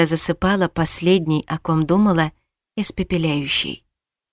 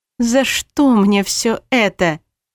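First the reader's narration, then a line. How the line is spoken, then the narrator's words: Moaned. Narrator (Russian): простонала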